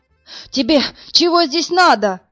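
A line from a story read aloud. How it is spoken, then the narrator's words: Shout. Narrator (Russian): крикнул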